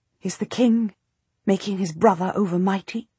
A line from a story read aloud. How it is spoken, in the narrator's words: the Queen whispers